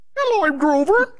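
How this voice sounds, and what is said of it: Grover puppet character voice. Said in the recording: “Is that a good impression? ... No.”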